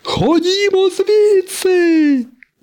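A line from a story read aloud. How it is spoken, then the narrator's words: Shout. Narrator (Ukrainian): закричав сирник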